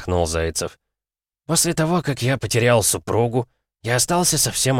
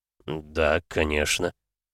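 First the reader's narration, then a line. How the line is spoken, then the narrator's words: Stunned mumble. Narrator (Russian): пробормотал несколько ошеломленный Максуд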